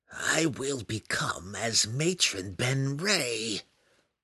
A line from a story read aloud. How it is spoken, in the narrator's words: she whispered in disgust